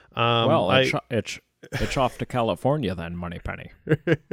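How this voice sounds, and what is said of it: Imitates a Scottish-accented film actor. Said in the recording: “I also love the comeback of the Sean Connery accent.”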